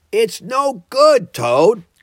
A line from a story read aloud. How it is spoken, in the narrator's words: cried the rat after him